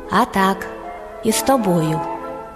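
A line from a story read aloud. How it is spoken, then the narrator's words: Calm hedgehog. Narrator (Ukrainian): їжак спокійно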